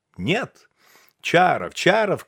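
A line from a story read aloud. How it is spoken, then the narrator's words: Friends shouting. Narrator (Russian): кричали встречные приятели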